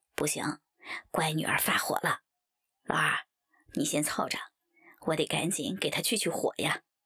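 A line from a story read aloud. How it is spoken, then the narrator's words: Laughing. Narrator (Chinese): 王左琳闻言笑道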